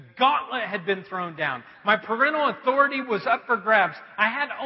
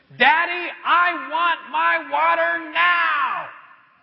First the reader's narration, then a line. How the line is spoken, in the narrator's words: a defiant little voice screeched from the bedroom